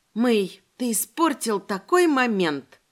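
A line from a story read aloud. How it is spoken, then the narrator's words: Near-groan of frustration. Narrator (Russian): Едва не застонала я вслух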